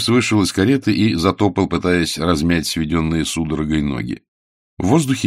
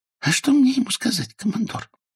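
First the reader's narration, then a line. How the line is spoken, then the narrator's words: Whisper. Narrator (Russian): шепнул Финни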